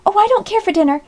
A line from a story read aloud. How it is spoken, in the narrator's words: cried Polly